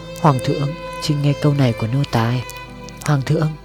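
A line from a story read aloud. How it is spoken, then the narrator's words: Soft pleading. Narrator (Vietnamese): Lý Đức Toàn giọng khẽ cầu xin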